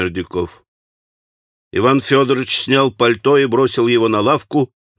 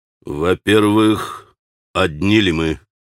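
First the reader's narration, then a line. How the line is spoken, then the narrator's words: Stern, rapid question. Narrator (Russian): строго и стремительно спросил Иван Федорович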